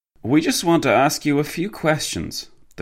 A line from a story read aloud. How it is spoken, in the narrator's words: the French policeman sighed